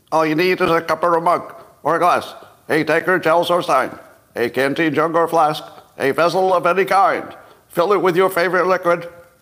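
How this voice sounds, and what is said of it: Old-time radio announcer voice. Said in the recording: “I'd like to read the simultaneous sip in old time radio voice... Old time radio voice... That's old timey radio.”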